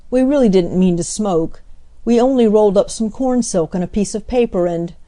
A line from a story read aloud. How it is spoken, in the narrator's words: cried